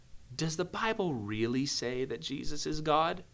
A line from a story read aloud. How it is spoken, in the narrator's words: He comes in and he whispers in someone's ear